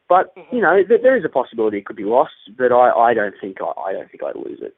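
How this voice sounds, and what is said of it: A beautiful accent. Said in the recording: “it's a great accent. It's beautiful.”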